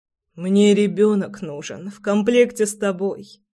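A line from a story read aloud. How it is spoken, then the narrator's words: Hoarse laughter. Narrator (Russian): Хрипло рассмеялся Прохор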